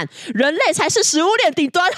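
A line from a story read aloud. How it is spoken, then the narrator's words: Shouting. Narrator (Chinese): 大喊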